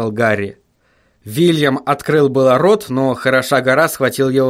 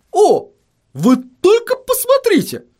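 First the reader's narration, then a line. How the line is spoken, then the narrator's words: Astonished exclamation. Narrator (Russian): воскликнул он … словно чему-то крайне удивившись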